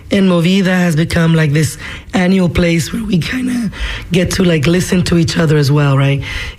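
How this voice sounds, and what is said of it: Hoarse voice cutting in and out. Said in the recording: “I'm a horse. My voice is going to come in and out”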